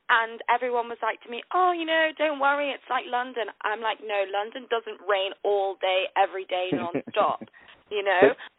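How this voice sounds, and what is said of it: British accent. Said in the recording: “your British accent,”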